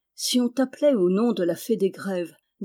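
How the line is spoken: Plain. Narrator (French): dit-elle

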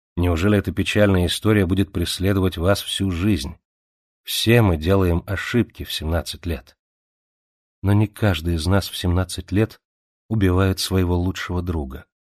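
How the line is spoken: Tired voice. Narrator (Russian): ответила она усталым голосом

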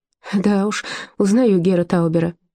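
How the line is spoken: Laughing. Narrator (Russian): засмеялась Зильке

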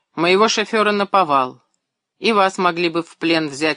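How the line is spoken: Angry speech. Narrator (Russian): опять сердито заговорил капитан

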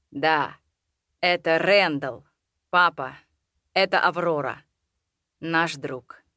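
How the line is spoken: Softly. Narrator (Russian): мягко проговорил Роудс

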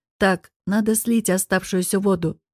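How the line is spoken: Businesslike tone. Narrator (Russian): деловым тоном выдал Артур

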